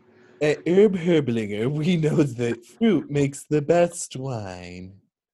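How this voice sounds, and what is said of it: Poor impression of Moira Rose. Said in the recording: “I was quoting Schitt's Creek ... your accent was nothing like Moira.”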